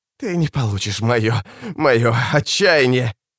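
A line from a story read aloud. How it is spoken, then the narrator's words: Hissed. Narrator (Russian): Капитан прошипела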